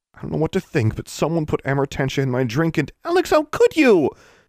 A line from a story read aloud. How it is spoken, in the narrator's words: Anna cried out